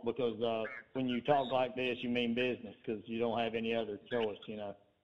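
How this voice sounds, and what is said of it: Speaks with a drawl accent. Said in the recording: “is that a real accent, or you just put it aside every week? You talk like that all the time ... You got that draw ... You got that draw.”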